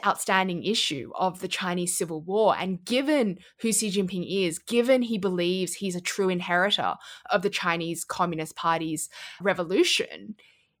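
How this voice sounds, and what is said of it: Australian accent. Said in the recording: “with an Australian accent”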